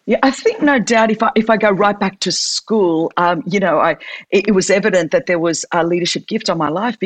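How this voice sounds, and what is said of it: Australian accent. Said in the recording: “in Sydney, Australia, you know, as you can tell from the accent, that's where I'm from”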